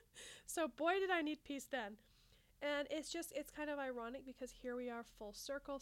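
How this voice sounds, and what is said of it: Congested, slightly scratchy voice. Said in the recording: “You can probably hear that I have some congestion ... My voice is a little bit scratchy”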